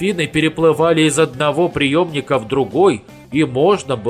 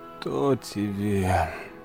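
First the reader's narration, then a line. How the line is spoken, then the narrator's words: Sleepy grumble. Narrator (Russian): Пробурчал доктор, не открывая глаз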